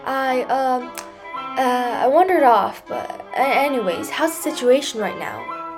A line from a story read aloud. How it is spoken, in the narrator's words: Pter stammered